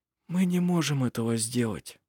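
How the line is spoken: Quiet. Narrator (Russian): тихо сказал жено

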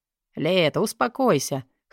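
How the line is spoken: With a snort. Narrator (Russian): хмыкнул

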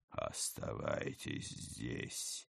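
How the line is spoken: Cold command. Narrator (Russian): холодно приказал преображенец

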